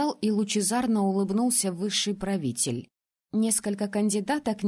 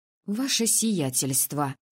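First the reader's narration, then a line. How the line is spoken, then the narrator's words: Hissing female voice. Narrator (Russian): прошипела я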